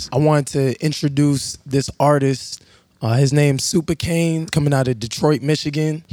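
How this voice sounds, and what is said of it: Hoarse voice. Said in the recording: “my voice is pretty hoarse.”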